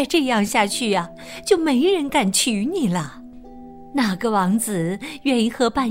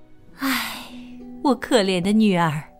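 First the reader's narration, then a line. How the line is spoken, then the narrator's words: Sighing, sorrowful. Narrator (Chinese): 妈妈叹了一口气，说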